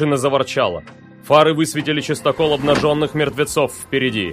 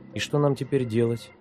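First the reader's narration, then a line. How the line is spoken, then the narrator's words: Quiet question. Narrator (Russian): тихо спросила Оля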